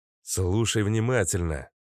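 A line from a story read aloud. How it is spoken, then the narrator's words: Irritated. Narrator (Russian): раздраженно произнес Макс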